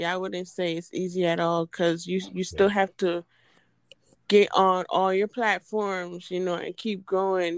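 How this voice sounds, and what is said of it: Island accent. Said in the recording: “I'm just loving your accent. ... I love island women.”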